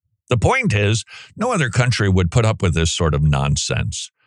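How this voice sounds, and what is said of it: Usual voice. Nothing is said of it.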